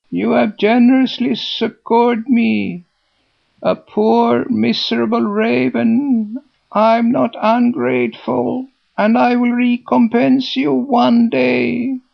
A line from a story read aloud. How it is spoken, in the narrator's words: screeched he, though not in the sweetest voice in the world